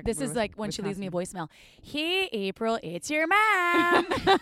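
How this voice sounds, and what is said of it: Exaggerated Midwest accent. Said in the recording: “My Midwest accent out just so you guys can get ready for my mom ... say give us a sentence of your accent”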